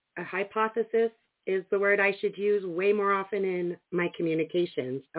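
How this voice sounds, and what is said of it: Fading, sick-sounding voice. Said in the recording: “You can probably hear in my voice that it's fading already. I was pretty sick yesterday”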